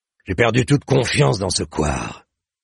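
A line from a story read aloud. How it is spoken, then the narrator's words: Angry growl. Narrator (French): gronda le sire de Maubrenas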